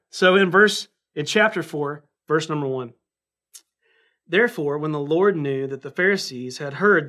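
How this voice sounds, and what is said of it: Southern US accent, North Carolina. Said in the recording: “my Southern accent will show you ... I sound like like I'm from North Carolina”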